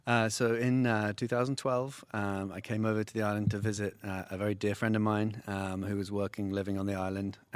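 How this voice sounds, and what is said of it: English accent. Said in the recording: “based on that accent, you're not from around here ... you're from England”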